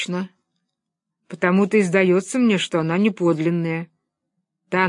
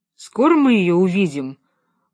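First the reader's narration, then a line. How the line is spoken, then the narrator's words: Gloomy drawl. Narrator (Russian): уныло протянул Том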